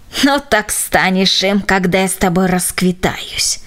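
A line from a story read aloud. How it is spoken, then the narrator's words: Old woman grumbling. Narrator (Russian): проворчала старушка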